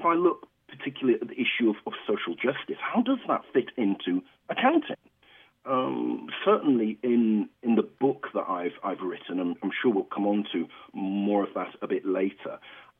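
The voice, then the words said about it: British accent. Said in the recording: “why does he have that odd accent? I'm actually from the United Kingdom. I'm a black British professor from the United Kingdom.”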